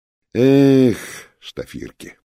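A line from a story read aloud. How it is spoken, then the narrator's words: Mock sigh. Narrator (Russian): притворно вздохнул капитан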